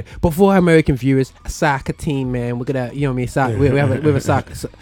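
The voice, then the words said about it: Put-on American accent. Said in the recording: “my American accent was bang on there”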